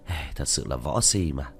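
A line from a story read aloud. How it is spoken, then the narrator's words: Speechless weary sigh. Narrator (Vietnamese): Diệp Thiếu Dương cạn lời vì đi đến trong phòng thở dài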